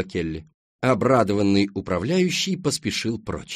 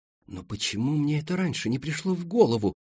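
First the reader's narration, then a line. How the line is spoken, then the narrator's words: Moaning. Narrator (Russian): простонала Даяна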